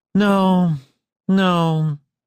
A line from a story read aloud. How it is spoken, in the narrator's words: he said sleepily